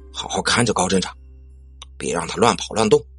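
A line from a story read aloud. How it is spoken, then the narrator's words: Low-voiced instruction. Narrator (Chinese): 低声叮嘱道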